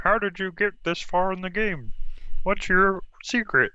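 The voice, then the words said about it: Kermit the Frog-like impression voice. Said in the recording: “is Kermit the Frog one of the jurors on this season? ... That was my Alicia impression. ... I think Alicia sounds a little bit more human than that ... Most of my impressions do sound like Kermit the Frog”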